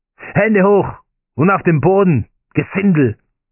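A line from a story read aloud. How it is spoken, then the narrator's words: Group roaring. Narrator (German): brüllten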